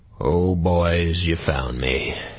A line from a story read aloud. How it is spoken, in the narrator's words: Caleb said hoarsely